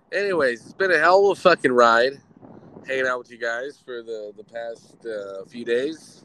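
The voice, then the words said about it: Hoarse, congested voice. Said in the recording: “Losing my voice. Sound like shit. ... My nose is clogged from here to Georgia”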